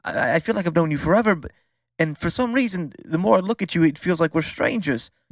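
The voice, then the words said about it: Crazy put-on accent. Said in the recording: “This fucking accent of yours is mind-boggling. ... It is quite crazy.”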